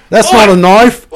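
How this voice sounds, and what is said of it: Bad put-on Australian accent. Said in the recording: “do an Australian impression ... Australian, eh? ... terrible.”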